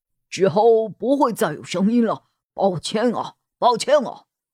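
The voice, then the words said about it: Somewhat slurred, mumbled speech. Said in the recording (Chinese): “有个人在窗帘后用有些含糊不清的声音说着”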